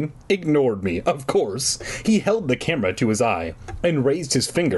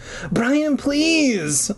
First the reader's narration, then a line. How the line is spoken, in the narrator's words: I wailed